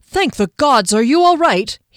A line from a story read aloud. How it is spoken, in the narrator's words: he cried